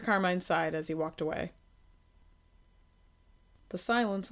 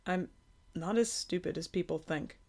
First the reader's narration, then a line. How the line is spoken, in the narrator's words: Kay muttered